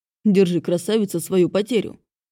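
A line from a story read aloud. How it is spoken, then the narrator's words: Deep bass voice. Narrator (Russian): пробасил спаситель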